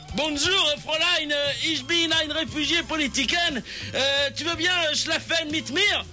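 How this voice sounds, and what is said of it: Put-on foreign accent. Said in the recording (French): “tu lui parleras avec un accent étranger”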